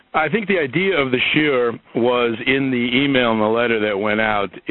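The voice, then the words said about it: Hoarse voice. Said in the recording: “excuse my voice sounding a little bit hoarse. ... I had bronchitis for the last 3 weeks, and while I'm over it, I still have that sort of scary-sounding voice.”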